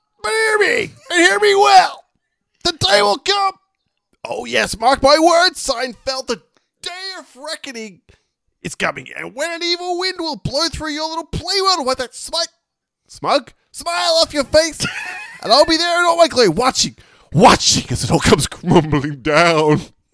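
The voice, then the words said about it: Impression of Newman from Seinfeld. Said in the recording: “try and do my best Newman voice... That was actually okay.”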